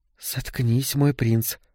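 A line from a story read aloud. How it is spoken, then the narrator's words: Whispered reply, female. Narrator (Russian): прошептала она в ответ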